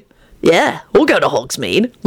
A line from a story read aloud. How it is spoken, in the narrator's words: Lupin added cheerfully